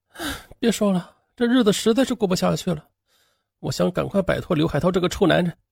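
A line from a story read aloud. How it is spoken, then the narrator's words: Weary sigh. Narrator (Chinese): 李东英叹口气说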